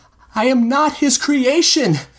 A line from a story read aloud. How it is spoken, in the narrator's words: Alphonse cried back, voice cracking as he spoke